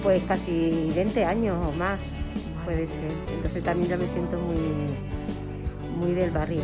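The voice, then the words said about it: Olivenza regional Spanish accent. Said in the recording (Spanish): “me siento tu acento oliventino ... Se nota ... es de Oliventa, por las S”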